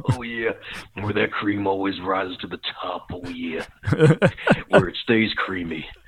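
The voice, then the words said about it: Macho man wrestler impression. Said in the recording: “you could just do your macho man”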